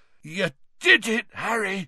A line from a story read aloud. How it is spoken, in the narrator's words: said Hagrid hoarsely